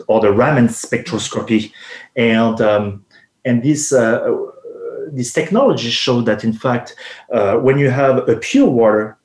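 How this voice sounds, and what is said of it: Speaks with a foreign accent. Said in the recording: “sorry for my accent”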